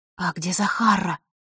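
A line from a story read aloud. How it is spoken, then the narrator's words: Quiet question. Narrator (Russian): так же тихо спросила Василиса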